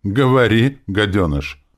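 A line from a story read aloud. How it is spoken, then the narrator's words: Calm. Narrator (Russian): Профессор спокойно сказал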